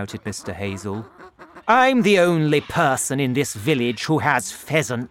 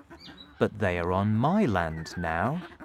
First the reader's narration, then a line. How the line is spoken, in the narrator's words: my father said quietly